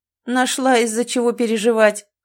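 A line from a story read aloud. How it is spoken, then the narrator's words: Dismissive snort. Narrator (Russian): хмыкнул он, будто это и не проблема вовсе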